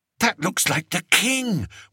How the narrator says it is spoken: whispered Daisy

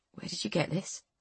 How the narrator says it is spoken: His voice was a hoarse, tight whisper

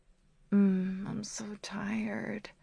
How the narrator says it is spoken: I mumble sleepily

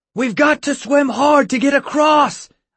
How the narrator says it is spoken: I shouted

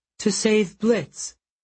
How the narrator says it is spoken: she said, her voice quavering

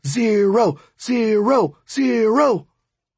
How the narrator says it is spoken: screaming or chanting

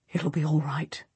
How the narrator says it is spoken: he whispers

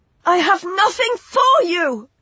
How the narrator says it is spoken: she shouted

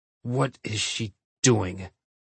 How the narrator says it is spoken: he asked through gritted teeth

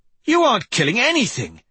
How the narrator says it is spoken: Persephone exclaimed

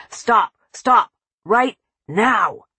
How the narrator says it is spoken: His tone turned threatening

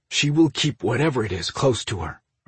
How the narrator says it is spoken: Orion replied in a terse tone

